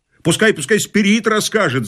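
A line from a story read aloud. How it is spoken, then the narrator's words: Crowd shouting. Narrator (Russian): закричала толпа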